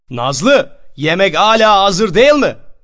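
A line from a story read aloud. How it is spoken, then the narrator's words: Shouting upstairs. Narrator (Turkish): diye yukarı kata bağırırdı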